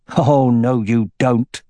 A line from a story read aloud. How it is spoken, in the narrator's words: Roran growled